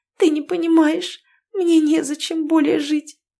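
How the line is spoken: Anguished moan. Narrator (Russian): Ирина простонала от удушающей душевной боли

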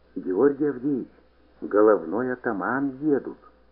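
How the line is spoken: Whispering. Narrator (Russian): прошептал

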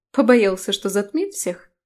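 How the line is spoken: Ironic snort. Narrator (Russian): иронично хмыкнула

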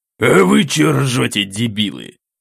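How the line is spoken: Growled. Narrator (Russian): рыкнул Лобанов

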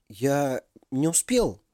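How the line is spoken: Flustered mumble. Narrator (Russian): промямлил растерявшийся Ярослав

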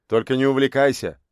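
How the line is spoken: Amused snort. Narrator (Russian): хмыкнул тот

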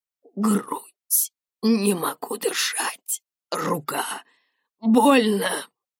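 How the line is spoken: Wheezing in pain. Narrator (Russian): хрипел он

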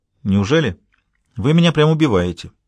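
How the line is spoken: Businesslike. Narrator (Russian): деловым тоном отозвалась Джуди

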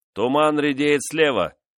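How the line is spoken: Sailor shouting. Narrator (Russian): крикнул один из матросов

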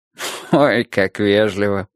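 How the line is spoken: Good-natured laugh. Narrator (Russian): рассмеялся он, но не злобно

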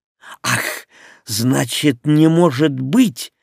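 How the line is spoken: Angry snort. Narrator (Russian): сердито фыркнула

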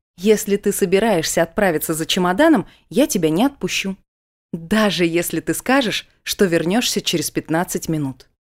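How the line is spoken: Laughing, changing the subject. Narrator (Russian): сменила я тему, смеясь

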